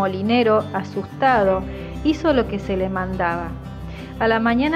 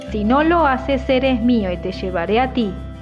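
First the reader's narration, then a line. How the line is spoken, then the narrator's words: Threatening tone. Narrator (Spanish): le dijo con tono amenazador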